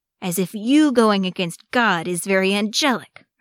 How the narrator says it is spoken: Arcadius snapped

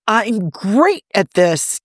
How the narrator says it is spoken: Tony yells

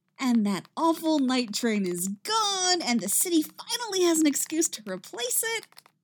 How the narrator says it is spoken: Patty says happily

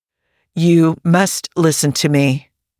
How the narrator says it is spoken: said in a firm tone

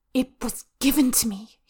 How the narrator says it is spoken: he hisses

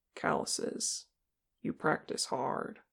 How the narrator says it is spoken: he said softly

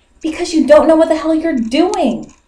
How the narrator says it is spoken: Stiles snapped

